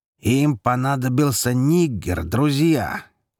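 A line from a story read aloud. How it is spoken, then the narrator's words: Loud repetition. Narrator (Russian): громко повторил Лерой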